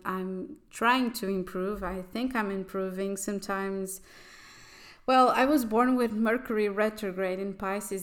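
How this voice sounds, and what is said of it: Non-native accent, halting speech. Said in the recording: “i've already uh, spoke about it in the portuguese episodes, um, portuguese spoken episode ... my sometimes my accent and my articulation are not the best ... my sometimes kind of stalling speech”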